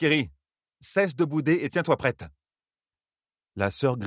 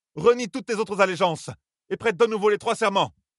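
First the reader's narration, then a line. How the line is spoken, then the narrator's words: Shouted. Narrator (French): cria-t-elle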